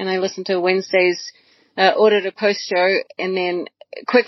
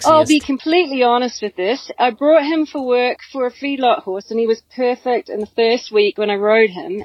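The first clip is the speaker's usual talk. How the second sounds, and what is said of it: Put-on Australian accent. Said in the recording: “read it for Glenn in my best Australian accent”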